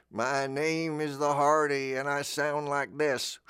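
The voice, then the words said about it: Imitates another person's voice. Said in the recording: “So that's my David Lynch tribute.”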